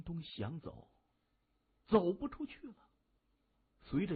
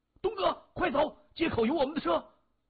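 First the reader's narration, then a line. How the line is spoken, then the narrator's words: Shouting. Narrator (Chinese): 对着谢文东大喊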